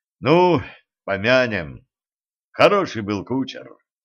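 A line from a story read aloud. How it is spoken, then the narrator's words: Mournful voice. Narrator (Russian): траурным голосом сказал он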